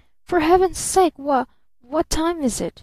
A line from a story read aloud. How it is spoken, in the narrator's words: he faltered